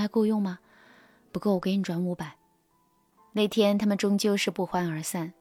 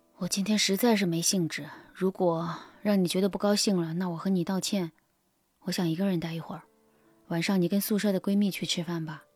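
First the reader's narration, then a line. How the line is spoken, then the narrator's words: Deep sigh. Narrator (Chinese): 男友深深的叹了一口气，对薇安说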